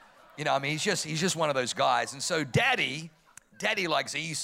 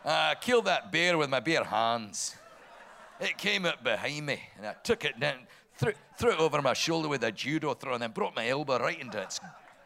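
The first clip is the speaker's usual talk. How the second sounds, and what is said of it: Put-on Scottish accent. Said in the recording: “Speaks with a Scottish accent.”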